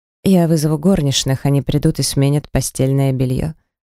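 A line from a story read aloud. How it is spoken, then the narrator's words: Matter-of-fact tone. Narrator (Russian): произнес обыденным тоном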